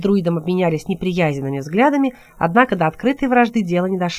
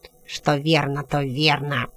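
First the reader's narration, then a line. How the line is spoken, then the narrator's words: Muttering. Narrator (Russian): пробурчал Луигайре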